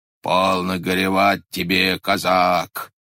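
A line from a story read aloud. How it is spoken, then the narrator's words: Booming bass voice. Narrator (Russian): загремело что-то басом над ним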